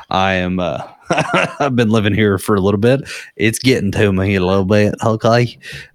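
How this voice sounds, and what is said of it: Country accent. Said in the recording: “my country accent is creeping back in”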